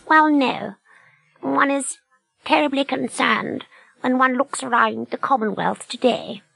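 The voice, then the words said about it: Royal character voice. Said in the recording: “HRH is a good character.”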